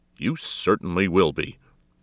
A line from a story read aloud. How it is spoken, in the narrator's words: snapped